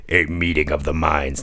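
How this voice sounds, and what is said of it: Imitates another voice. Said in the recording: “my Warner Brothers impersonation”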